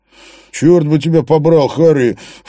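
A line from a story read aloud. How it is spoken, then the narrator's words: Snorting. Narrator (Russian): фыркнул Эйнштейн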